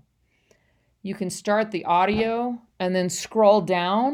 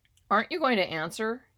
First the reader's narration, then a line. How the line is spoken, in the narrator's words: he said